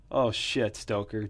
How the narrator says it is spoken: Jim laughed

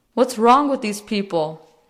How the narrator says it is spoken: John yelled from the pickup window at the front of the restaurant

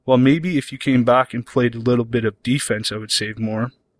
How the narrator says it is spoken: Armando says

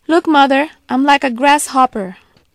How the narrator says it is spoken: called out

